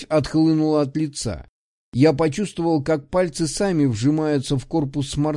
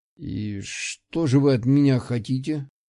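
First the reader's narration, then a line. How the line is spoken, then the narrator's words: Strained, forced calm. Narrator (Russian): выдавил я, пытаясь сохранить хоть какую-то видимость спокойствия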